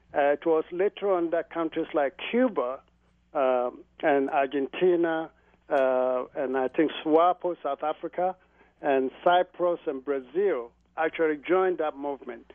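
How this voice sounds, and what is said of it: Slight foreign accent. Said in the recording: “you seem to have a little bit of an accent.”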